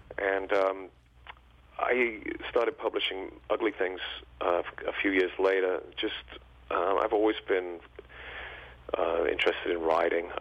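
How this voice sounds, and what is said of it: English accent. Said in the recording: “I can tell from your voice, you did not grow up in the U.S. ... I grew up in England, as you can probably tell from the accent”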